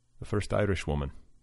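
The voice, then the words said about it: Put-on Irish accent. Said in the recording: “my impression of an Irish accent”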